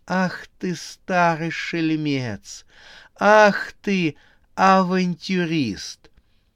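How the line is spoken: Laughing, almost crying. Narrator (Russian): Она вдруг расхохоталась и чуть не расплакалась

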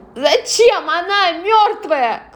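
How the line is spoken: Shout. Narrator (Russian): крикнула

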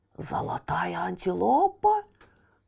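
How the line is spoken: Surprised whisper. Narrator (Russian): прошептал удивленный Раджа

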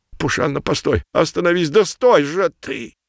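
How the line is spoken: Hoarse father. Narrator (Russian): прохрипел папа

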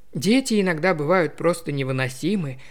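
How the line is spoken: Sigh. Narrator (Russian): вздохнула Таппинс

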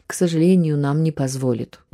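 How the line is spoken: Weary teacher answering. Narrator (Russian): устало отвечал учитель, потому что это был уже сотый вопрос

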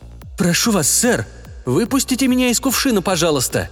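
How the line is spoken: Pleading. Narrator (Russian): взмолился коридорный

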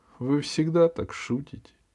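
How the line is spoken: Sad question. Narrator (Russian): печально спросил Джонни

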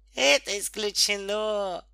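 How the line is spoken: Cheerful. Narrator (Russian): весело сказал детский доктор

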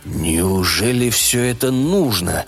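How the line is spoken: Devil's sigh. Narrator (Russian): вздохнул дьявол

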